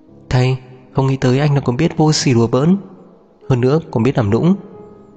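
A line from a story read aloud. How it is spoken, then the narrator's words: Amused, after long laughter. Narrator (Vietnamese): Lam Mạc Mạc bật cười, hồi lâu mới ngừng cười rồi mở miệng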